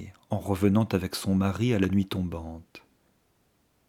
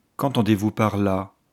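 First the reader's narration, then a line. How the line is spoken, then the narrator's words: Expressionless voice. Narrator (French): dit Archer d'une voix sans expression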